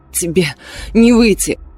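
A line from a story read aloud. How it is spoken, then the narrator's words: Hoarse rasp. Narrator (Russian): прохрипела я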